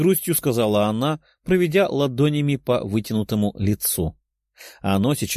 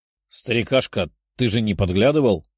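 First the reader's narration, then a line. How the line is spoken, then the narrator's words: Displeased grumble, young woman. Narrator (Russian): проворчала недовольная девушка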